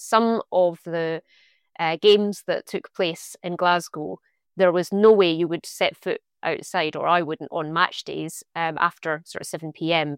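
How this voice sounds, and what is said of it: Scottish accent. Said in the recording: “I'm from Scotland, as you can hear from the accent”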